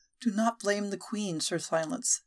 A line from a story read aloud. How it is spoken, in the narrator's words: she said softly